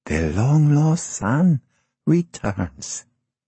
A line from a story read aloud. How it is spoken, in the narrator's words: Blanca laughed and whispered